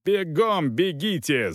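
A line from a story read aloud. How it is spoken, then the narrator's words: Yelling. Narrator (Russian): заорал Волков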